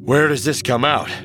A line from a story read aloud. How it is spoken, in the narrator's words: Han panted